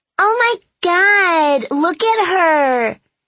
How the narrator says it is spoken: Marissa shrieked to the other girls

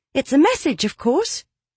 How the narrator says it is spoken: Livia told her impatiently

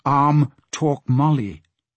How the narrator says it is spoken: said Arm

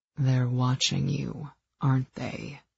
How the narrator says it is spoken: he purred

